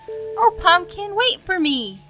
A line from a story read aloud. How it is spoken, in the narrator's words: He cried